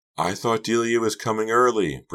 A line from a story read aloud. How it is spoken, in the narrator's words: Pretty shouted over the throbbing music